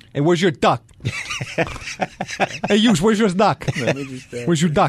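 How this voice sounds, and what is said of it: Put-on New York accent. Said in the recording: “can you say it in a New York accent? ... A little more emphasis.”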